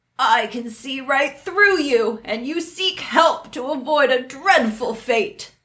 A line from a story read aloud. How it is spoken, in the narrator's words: The hag cried out